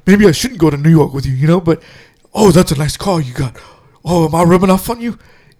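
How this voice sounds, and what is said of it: Imitates an actor's odd accent. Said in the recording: “the way he talks is really funny ... where's this accent coming from”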